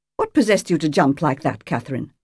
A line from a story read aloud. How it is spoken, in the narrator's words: snapped Godoliva over her shoulder